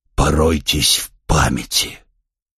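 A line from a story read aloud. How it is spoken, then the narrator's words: Hollow flat command. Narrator (Russian): пустым голосом велел Малкин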